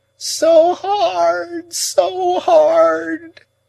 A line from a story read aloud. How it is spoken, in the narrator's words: moaned Miss Havisham